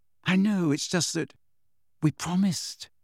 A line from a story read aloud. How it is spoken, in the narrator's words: said Hermione in a small voice